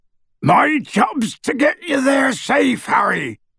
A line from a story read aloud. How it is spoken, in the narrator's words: bellowed Hagrid